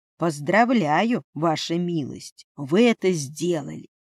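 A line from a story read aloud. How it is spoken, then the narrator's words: Smirking. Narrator (Russian): хмыкнул Дерек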